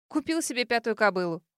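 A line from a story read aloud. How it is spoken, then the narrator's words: Snorting. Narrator (Russian): хмыкнула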